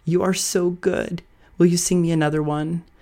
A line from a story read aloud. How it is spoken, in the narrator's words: She seemed to be entranced, she exclaimed